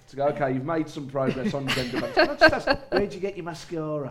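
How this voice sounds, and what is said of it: Poor imitation of a Birmingham accent. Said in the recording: “That was a really bad impression of you. ... no one can do a Birmingham accent well”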